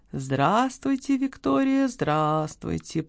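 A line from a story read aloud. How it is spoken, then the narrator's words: Purring. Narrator (Russian): промурлыкал этот человек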